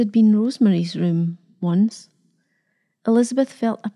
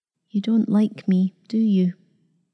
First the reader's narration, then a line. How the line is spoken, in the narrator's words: the girl said quietly